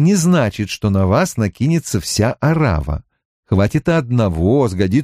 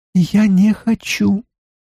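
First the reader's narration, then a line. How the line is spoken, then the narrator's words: Thin squeaky voice. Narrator (Russian): произнесла она тоненьким голоском, похожим на писк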